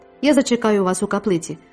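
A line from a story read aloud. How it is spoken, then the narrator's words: Plain. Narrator (Ukrainian): сказав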